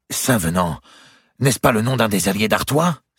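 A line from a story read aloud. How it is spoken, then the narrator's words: Exclaimed. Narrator (French): s'écria-t-il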